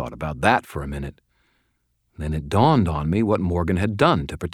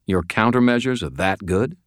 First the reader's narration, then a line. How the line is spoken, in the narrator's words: asked